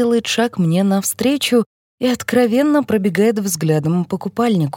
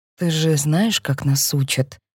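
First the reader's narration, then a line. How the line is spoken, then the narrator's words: Quiet. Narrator (Russian): тихо говорю я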